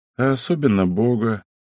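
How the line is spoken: Quiet old man. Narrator (Russian): старый Каштелян тихо прибавил

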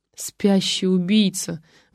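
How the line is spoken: Sighing. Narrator (Russian): вздохнул Ватагин

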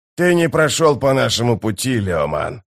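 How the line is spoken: Growled. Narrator (Russian): прорычал Геборик

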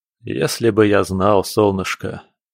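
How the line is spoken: Sigh. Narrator (Russian): вздохнул

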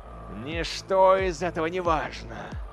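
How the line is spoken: Growled. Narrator (Russian): зарычал капитан

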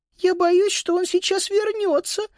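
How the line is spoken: Sudden squeak. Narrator (Russian): вдруг пропищала Сузи

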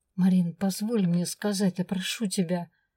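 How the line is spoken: Near pleading. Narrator (Russian): Почти взмолился Свен

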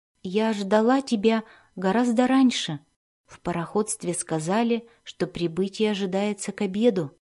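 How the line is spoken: Very calm voice. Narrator (Russian): Очень спокойным голосом она произнесла

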